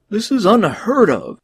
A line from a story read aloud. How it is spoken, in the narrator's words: he cried